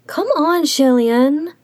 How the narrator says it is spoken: Xi Qingxuan whined

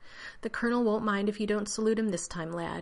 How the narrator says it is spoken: he said soothingly

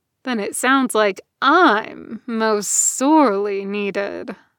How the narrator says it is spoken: Asterion said, letting his voice drop to a purr

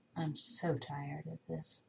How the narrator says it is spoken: Tony mutters

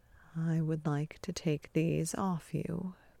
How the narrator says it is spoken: Beard murmurs

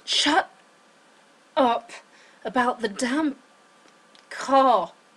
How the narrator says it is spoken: Sam moaned

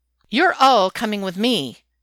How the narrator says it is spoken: Laura snaps

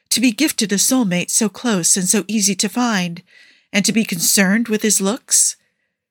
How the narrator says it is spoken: She sighed

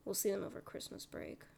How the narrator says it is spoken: he mumbles

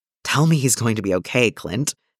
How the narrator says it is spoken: Steve says shakily

